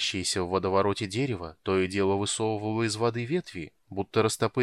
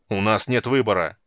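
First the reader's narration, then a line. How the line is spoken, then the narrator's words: Barked. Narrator (Russian): рявкнул Пудварак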